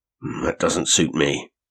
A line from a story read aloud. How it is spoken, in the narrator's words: he grunted